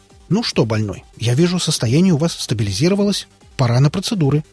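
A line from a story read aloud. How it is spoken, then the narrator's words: Brisk cheerful voice. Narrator (Russian): бодрым голосом сообщил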